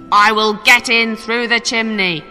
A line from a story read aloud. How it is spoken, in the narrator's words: He shouted